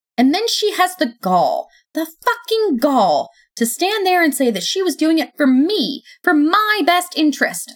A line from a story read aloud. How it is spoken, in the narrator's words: I yelled, letting my voice screech